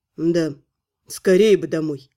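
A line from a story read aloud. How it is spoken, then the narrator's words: Sighing. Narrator (Russian): вздохнул Элвар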